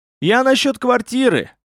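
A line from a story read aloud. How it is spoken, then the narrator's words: Desperate yell. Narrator (Russian): в отчаянии заорал несчастный висак Баши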